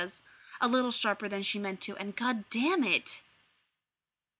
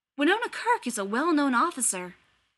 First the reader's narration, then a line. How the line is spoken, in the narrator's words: he says earnestly